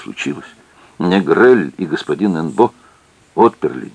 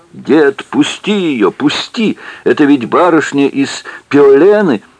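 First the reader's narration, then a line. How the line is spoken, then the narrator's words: Woman shouting. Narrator (Russian): закричала старику бессмертному жена Мэ, узнав Сесиль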